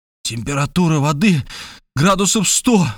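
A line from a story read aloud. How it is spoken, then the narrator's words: Exclaimed. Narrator (Russian): воскликнул я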